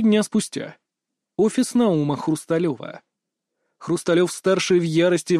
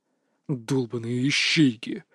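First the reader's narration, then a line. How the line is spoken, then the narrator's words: Angry growl. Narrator (Russian): рычал Валерий Наумович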